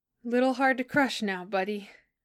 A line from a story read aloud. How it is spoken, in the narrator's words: laughing shakily